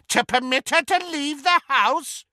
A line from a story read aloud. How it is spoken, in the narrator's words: cackled Muriel